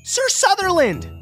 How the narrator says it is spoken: Darlene cried

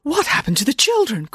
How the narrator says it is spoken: cried Nanny Ann

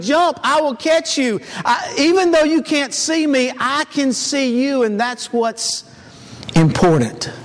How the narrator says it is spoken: the father yelled back up to him

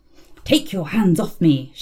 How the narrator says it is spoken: she hissed

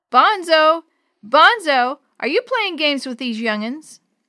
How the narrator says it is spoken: cupped his hands around his mouth, and called out

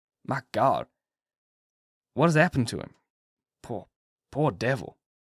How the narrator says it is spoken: he said softly

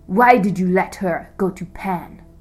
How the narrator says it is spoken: growled

